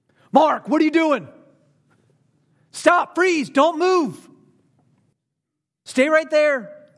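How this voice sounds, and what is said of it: Stern yelling dad voice. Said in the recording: “That's where dad voice comes in, right?... why is dad yelling at me?”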